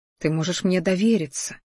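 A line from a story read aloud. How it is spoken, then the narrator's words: Whisper. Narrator (Russian): шептал я ей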